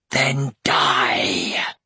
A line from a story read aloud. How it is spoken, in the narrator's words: they hissed